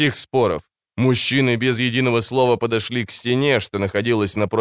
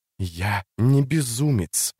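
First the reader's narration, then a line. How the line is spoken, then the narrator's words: Hissed into ears. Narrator (Russian): прошипел он ей в уши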